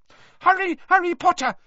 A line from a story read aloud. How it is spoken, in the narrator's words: squeaked Dobby